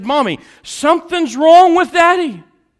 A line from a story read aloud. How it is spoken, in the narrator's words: The little girl screamed and she said